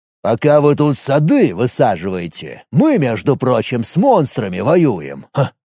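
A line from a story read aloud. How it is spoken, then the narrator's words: Scoffing snort. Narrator (Russian): хмыкнул Вольт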